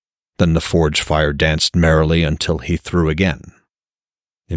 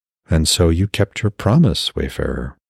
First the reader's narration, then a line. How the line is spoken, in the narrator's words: Ungerboda murmured